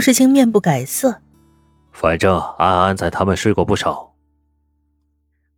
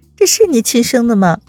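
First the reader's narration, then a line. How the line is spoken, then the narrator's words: Laughing. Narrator (Chinese): 温之夏笑出声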